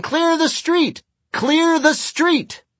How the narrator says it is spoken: Higgins shouting

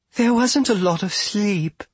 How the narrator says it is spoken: Argabella said soothingly

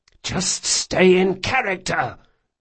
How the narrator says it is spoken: Locke hissed

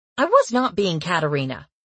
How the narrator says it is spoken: I snapped

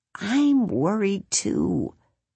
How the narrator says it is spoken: Bongo said in an almost whisper

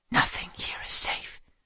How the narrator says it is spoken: the boy whispered

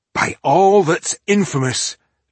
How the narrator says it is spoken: Tungdil exclaimed

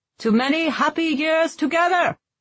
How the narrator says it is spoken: Leopold shouted

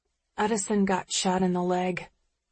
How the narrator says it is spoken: mumble into his coat

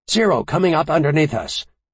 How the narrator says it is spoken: He called out to Ventral Gunner Shinneman

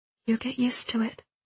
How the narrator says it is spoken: whispered almost inaudibly

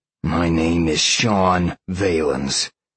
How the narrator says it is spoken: Sean growled at Sal

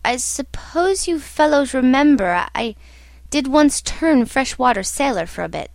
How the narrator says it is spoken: after a long silence when he said, in a hesitating voice

